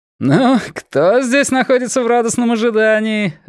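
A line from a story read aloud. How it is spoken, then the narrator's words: Laughing. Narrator (Russian): рассмеялся один из них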